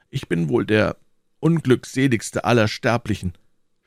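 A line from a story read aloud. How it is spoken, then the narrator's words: Sighing. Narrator (German): seufzte D'Artagnan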